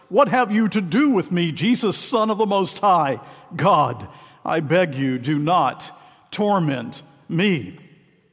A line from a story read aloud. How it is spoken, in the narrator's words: he cried out and fell down before him and said with a loud voice